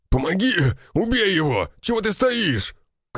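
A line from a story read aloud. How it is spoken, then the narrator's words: Fisherman shouting. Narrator (Russian): кричал рыбак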